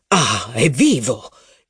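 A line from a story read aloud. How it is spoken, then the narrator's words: Relieved sigh. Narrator (Italian): esclamò il duca con un sospiro di sollievo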